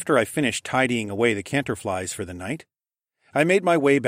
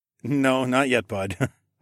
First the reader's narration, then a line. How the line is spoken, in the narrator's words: chuckled